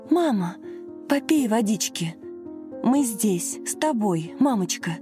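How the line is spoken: Anxious whisper. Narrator (Russian): взволнованно шептала Лена

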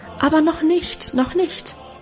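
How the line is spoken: Fearful cry. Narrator (German): rief ich eines Abends dabei ängstlich

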